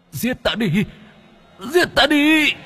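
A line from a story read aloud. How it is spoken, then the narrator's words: Whimpering sob. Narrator (Vietnamese): mãnh quỷ chỉ mếu máo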